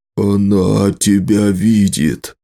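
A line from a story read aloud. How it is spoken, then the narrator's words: Hoarse whisper. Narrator (Russian): хрипло прошептал Нола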